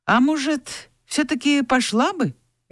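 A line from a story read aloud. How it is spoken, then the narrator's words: Hesitant suggestion. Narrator (Russian): неуверенно предложил Илья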